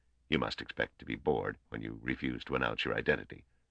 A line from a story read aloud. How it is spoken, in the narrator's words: he said in a low voice